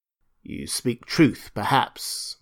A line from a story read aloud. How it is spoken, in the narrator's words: muttered Conan